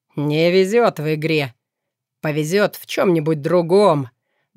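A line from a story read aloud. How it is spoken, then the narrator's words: Pleased chuckle. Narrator (Russian): довольно хохотнул один из подозрительных типов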